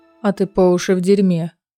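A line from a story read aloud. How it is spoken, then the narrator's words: Calm remark. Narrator (Russian): спокойно заметил Азриэль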